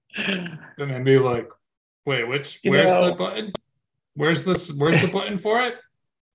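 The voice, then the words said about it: Imitates another person's voice. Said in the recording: “This is my Bill impression.”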